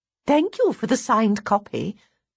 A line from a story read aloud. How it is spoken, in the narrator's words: puts in Mum brightly